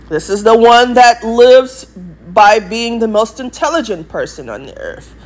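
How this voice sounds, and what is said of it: English accent. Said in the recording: “why I talk in an English accent ... I am talking in an English accent”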